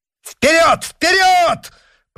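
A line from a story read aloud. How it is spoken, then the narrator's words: Piercing shout. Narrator (Russian): пронзительно крикнул Д'Артаньян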